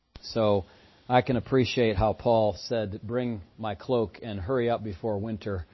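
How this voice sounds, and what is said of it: Voice not sounding quite right. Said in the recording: “that wore me down a little bit physically, and that's why my voice isn't quite sounding right still”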